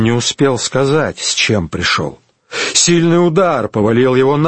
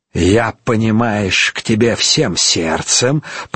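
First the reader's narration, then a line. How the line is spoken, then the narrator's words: Hissed. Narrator (Russian): прошипел Пашко Рымбаба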